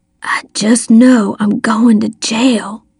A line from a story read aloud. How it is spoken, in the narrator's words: he whispered